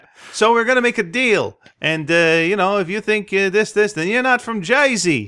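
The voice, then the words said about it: Put-on New Jersey accent. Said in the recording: “That's my Jersey accent”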